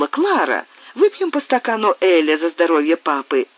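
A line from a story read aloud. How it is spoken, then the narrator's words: Exclaimed. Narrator (Russian): она воскликнула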